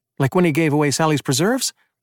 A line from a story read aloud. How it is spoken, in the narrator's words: Emmett laughed